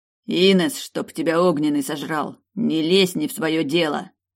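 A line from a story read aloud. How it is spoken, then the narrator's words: Barking. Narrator (Russian): Рявкнул Сорин, и его слова эхом отозвались в стенах пустого коридора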